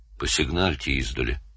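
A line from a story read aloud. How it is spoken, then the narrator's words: Plain. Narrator (Russian): сказал Лагун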